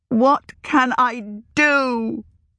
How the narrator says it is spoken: She cried

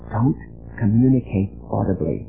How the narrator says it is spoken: she whispered

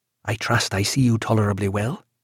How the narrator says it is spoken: said to him in a low voice

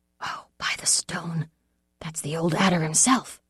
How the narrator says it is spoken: Alec muttered

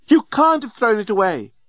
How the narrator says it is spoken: screamed the remarkably attractive and available female alien

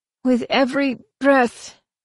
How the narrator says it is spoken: the prisoner gasped

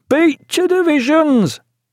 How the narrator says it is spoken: Veedle, the acting first lieutenant, who cried

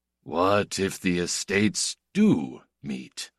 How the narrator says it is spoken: said Guida in his slow, hard, quiet voice

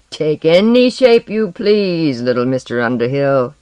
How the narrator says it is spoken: he taunted

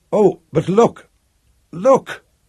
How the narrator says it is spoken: cried Piera, not calm

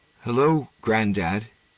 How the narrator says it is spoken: he said huskily

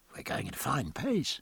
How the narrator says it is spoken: Martin said to Bondon in a low tone

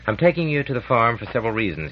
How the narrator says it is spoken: he said

